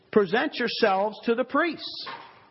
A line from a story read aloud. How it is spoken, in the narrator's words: he shouts to them